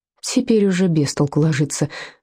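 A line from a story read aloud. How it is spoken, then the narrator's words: Sigh. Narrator (Russian): вздохнул Вольфганг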